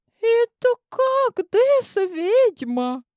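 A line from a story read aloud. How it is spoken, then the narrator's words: Squeak. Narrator (Russian): пискнул кто-то из моей стайки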